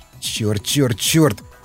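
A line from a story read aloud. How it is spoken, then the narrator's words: Muttering. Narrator (Russian): бормотал Васнецов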